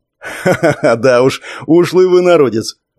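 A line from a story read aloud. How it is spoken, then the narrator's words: Laughing. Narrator (Russian): рассмеялся Леха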